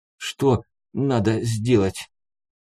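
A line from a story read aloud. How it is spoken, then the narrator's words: Through gritted teeth. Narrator (Russian): спросил сквозь зубы пленный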